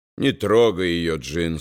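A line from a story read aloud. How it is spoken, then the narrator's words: Calm. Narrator (Russian): спокойно сказал Томас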